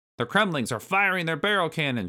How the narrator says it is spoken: shouted Rambi

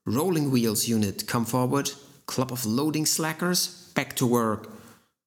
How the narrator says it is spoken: he swallowed, barked

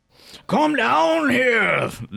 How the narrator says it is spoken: they scream

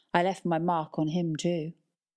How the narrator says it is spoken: she sighed

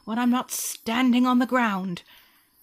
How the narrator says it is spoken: Wolf cried

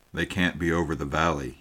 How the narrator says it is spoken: he said

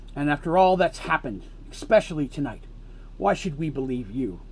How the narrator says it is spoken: asked Mercy angrily

